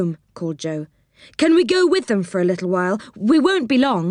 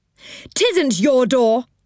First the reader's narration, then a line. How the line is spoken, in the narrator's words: shouted Moonface